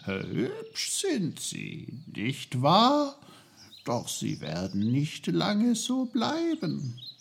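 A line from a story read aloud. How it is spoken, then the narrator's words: Cheerful speech. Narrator (German): Die Birke fröhlich sagte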